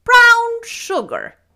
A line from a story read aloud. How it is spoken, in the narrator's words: exclaimed Marilla